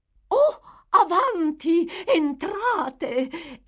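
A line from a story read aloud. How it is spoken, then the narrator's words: Matron, much gentler tone. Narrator (Italian): esclamò la matrona in un tono di voce di gran lunga più soave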